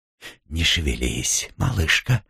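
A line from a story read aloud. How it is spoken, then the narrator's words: Whisper in ear. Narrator (Russian): прошептал ей на ухо знакомый голос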